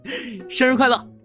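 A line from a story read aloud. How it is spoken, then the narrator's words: Giggling. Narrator (Chinese): 沈燕嘻嘻一笑说道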